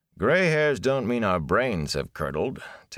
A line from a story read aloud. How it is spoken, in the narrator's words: Tam said dryly